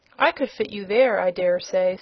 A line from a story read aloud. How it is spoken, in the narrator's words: said his friend